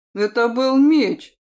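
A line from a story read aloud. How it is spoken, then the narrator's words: Snapping retort. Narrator (Russian): огрызнуться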